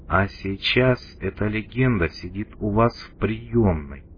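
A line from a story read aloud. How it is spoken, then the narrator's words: Plain. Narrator (Russian): сказал куратор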